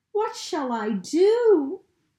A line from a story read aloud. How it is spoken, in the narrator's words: wailed Bertie